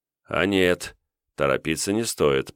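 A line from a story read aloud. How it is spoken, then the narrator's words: Mumbling. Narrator (Russian): пробормотал я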